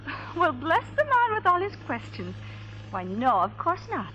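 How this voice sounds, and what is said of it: Irish accent. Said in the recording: “That's quite an accent you got there. Irish, ain't it?”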